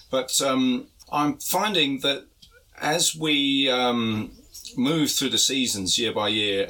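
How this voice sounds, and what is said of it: Congested, hay-fever-affected voice. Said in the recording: “you may be able to hear from my voice, I'm actually feeling the effects of the vast amounts of pollen in the air at the moment. I suffer from hay fever”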